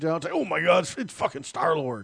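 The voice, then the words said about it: Imitates another person's voice. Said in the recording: “my impression of Kevin Smith”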